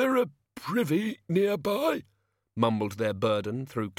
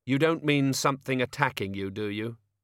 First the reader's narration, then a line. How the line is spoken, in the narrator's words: she said flatly